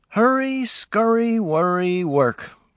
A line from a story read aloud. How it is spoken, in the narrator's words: Truman sighed